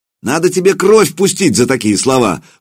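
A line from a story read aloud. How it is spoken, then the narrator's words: Shout. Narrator (Russian): выкрикнул Илья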